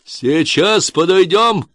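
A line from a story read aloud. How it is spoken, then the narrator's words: Shout. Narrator (Russian): крикнул он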